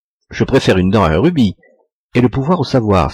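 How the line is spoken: Smiling exclamation. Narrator (French): s'écriait-il parfois en souriant

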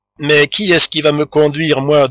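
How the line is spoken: Muffled voice. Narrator (French): demanda le maître d'école d'une voix sourde

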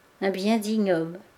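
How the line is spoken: Murmured. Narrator (French): murmura-t-elle

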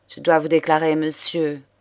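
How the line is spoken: Cold reply. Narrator (French): reprit froidement

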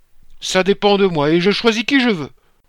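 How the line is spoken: Growled. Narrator (French): grondait

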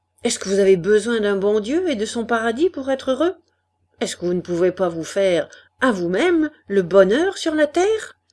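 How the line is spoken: Ardent voice, talking endlessly. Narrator (French): D'une voix ardente, il parlait sans fin

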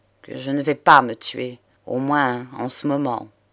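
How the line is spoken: Cold. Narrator (French): reprit froidement l'avocat

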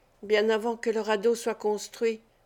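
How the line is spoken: Murmured. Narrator (French): murmura-t-il

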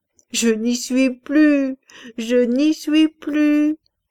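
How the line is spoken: Deep muffled female voice. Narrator (French): elle disait là-dessous, d'une grosse voix étouffée

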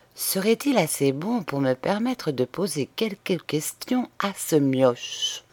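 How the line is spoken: Low voice. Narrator (French): dit-il à voix basse

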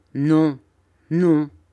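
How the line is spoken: Pensive grumble. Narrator (French): grommela monsieur Barkis d'un air pensif

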